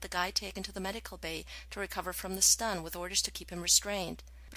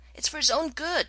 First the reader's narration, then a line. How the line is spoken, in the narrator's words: McKay yelled back